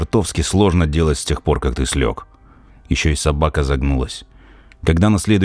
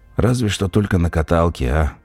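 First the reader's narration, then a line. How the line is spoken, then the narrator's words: Lazy question, sick man. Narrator (Russian): лениво спросил больной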